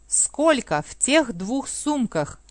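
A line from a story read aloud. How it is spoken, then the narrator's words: Plain. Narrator (Russian): спросил Рост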